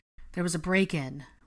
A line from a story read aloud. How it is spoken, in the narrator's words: Ron sighed, looking quite harried and distressed